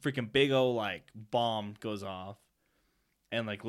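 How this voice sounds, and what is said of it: Usual voice. Nothing is said of it.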